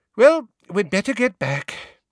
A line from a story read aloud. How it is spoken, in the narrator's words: sighed Mrs